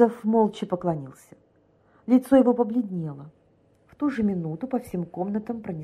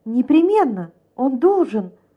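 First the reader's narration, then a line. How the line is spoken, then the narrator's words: Exclaimed. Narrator (Russian): воскликнула Дьякова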